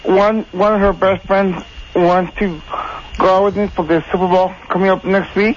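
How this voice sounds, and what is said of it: El Paso accent. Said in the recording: “I could tell. ... I heard that accent. El Paso accent.”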